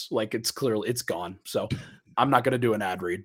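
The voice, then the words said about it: Hoarse, failing voice. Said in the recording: “I can't speak. I don't know if you guys can hear. You probably can. I'm losing my voice.”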